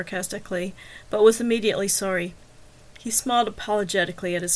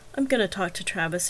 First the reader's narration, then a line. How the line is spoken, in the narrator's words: he said gently